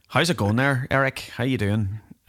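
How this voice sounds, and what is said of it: Thick put-on Northern Irish accent. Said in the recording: “I put on my Northern Ireland accent a bit... I laid it on a bit thick.”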